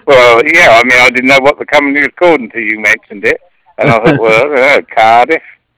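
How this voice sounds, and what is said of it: English accent. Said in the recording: “I'm from England ... I love your accent”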